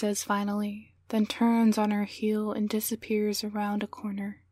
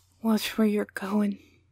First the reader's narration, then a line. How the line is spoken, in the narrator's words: slurs a man with beer stains down his shirt